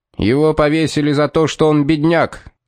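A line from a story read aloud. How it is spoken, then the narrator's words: Furious bark. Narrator (Russian): яростно рявкнул толстяк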